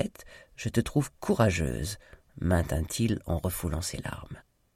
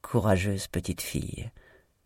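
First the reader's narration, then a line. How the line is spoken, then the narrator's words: Moved, admiring murmur. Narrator (French): murmura-t-il, ému et admiratif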